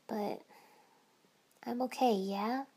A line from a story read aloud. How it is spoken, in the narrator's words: I said quietly